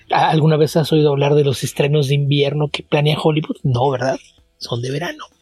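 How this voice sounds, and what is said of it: Slightly congested voice. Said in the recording (Spanish): “suenas un poco congestionado ... congestionado un poco”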